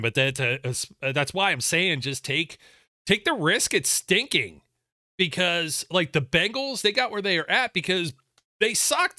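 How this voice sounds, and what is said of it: Strained, fading voice. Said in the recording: “this weather is still killing my throat. I'm losing my voice”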